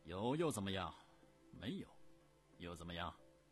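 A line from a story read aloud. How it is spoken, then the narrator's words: Cold. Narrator (Chinese): 冷冷地说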